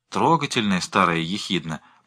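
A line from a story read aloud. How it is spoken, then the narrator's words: Mutter. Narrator (Russian): пробормотала Джоанна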